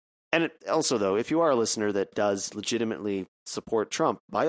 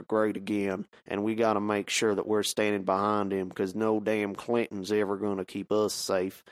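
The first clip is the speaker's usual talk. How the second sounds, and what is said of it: Put-on Southern US accent. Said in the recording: “it's finding myself real hard to get out of this voice ... our Southern listeners out there from the previous accent”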